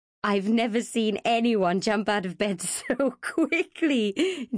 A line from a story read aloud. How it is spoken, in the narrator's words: Gina chuckled